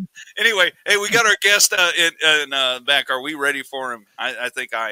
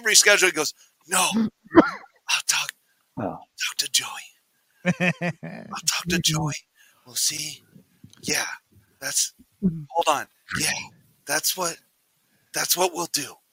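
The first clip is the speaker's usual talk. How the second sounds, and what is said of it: Imitates another person's serious voice. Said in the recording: “That's just like a spot on Mike getting serious voice.”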